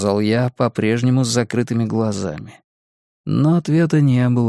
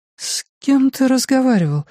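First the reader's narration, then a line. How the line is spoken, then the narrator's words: Sleepy. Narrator (Russian): сонно спросила моя жена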